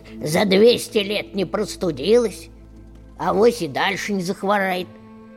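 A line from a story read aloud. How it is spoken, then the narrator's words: Grumbling old woman. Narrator (Russian): проворчала Баба-Яга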